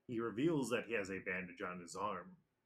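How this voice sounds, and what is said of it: English anime narrator voice. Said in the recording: “my English One Piece narrator voice”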